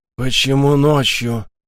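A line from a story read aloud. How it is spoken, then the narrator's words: Mechanical hissing question. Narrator (Russian): с механическим шипением спросил цитаделец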